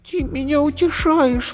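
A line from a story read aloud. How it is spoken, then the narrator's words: Sobbing. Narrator (Russian): всхлипнула Зайка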